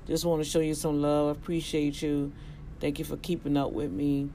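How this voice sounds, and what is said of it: Rough, poor-sounding voice. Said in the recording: “now my voice just is horrible”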